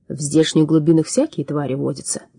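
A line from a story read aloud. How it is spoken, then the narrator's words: Calm. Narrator (Russian): спокойно молвил он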